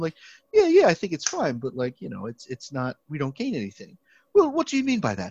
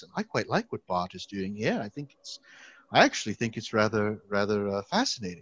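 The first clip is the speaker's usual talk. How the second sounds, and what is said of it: Put-on British accent. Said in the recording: “I'm going to try to do a British accent.”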